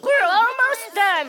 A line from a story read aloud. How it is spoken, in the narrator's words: Nicholas shouts